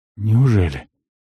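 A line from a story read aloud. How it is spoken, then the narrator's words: Breathed out. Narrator (Russian): выдохнул полуэльф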